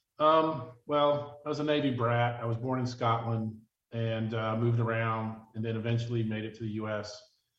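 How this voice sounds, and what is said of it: Southeastern US accent. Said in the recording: “I've been living in the Southeast primarily since the mid-70s, hence the accent”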